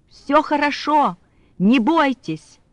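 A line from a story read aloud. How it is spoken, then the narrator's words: Shouting. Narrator (Russian): он кричал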